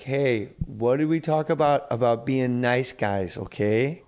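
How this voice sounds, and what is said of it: Put-on Canadian accent. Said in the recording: “I turn Canadian”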